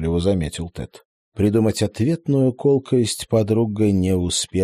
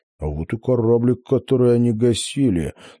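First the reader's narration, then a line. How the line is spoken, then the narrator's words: Triumphant hiss. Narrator (Russian): торжествующе прошипел Тед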